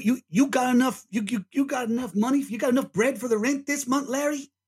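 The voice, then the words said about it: Put-on New York accent. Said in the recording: “doing a New York accent? ... that was too authentic for my liking”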